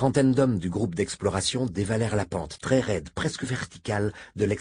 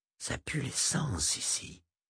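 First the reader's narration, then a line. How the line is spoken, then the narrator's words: Loud whisper in silence. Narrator (French): Le chuchotement d'Ismaïl résonna avec force dans le silence sépulcral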